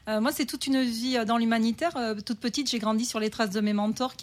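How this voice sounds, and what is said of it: Slight regional accent. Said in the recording (French): “Vous avez un petit accent”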